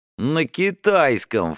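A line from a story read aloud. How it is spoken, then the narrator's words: Snorting. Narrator (Russian): фыркнул Стас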